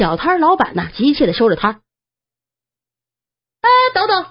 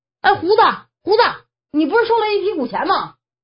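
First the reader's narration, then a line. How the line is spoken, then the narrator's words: Repeated calling. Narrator (Chinese): 连喊了三遍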